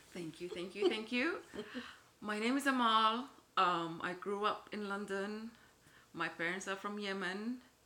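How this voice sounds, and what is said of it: Foreign accent. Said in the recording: “accent is a tad different from mine ... We just obsess over foreign accents”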